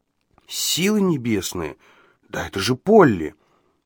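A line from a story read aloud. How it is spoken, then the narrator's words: Muttered. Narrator (Russian): пробормотал Ладлоу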